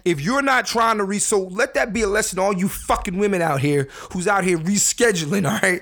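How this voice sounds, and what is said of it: Angry, heated delivery. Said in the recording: “I sound angry.”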